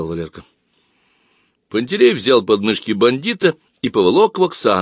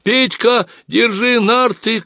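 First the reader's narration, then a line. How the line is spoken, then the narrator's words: Shouted. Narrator (Russian): крикнул Пантелей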